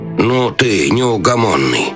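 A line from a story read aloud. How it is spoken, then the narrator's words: Grumbling. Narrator (Russian): проворчал советник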